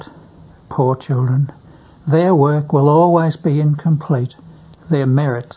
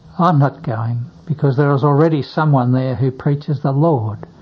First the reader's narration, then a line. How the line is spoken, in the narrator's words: or timidly